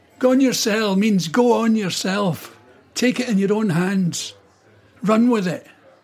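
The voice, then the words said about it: Glasgow Scottish accent. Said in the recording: “your voice and the accent... That Glasgow accent is very fun to listen to.”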